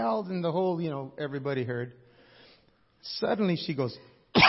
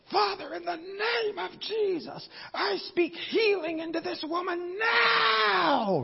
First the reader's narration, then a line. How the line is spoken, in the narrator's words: he yelled